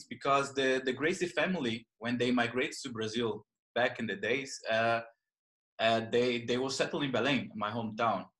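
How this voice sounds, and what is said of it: Brazilian accent. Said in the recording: “as you can notice by my accent, I'm Brazilian”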